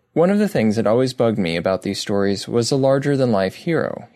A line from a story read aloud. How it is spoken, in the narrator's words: he says